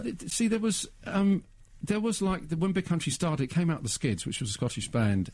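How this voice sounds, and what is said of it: Strong Slough English accent. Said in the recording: “My Slough accent's still strong, you know, I'll never lose that.”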